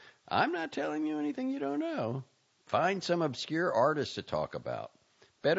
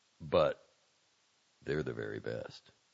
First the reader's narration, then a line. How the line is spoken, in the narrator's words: Valenti said quietly